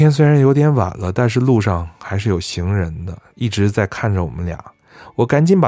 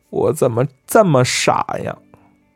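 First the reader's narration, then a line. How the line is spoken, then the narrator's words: Wailing, sobbing. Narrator (Chinese): 他嚎啕大哭起来，一边哭一边说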